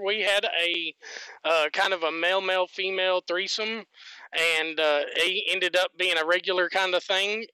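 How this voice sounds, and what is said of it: Southern US accent. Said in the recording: “it's in the South, if, if you can't tell by my voice.”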